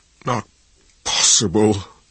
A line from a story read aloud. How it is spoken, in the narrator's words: his voice an agonized whisper